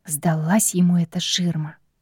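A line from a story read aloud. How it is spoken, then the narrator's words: Grumbling aloud. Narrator (Russian): проворчала я вслух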